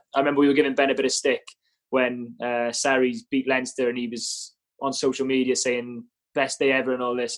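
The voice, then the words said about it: Welsh accent. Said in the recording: “I can clearly hear the Welsh twang.”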